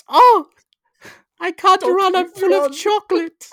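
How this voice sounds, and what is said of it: Cartoonish German accent. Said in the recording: “your first port of call for German accents is Uta from The Simpsons.”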